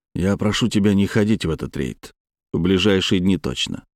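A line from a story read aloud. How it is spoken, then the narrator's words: Plain. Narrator (Russian): сказал я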